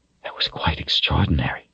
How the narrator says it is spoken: she whispered

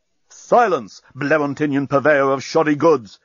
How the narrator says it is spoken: shouted Bolfas

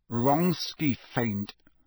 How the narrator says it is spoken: said Harry through gritted teeth

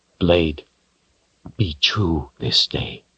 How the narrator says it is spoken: he whispered

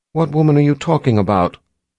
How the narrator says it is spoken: Violet asked in a trembling voice

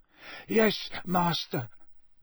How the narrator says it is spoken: moaned Wormtail

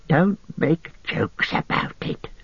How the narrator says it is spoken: hissed Gollum

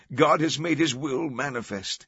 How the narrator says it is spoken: others exclaimed

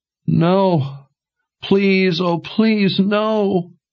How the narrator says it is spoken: wailed

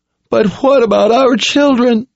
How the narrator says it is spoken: a woman in tears begged

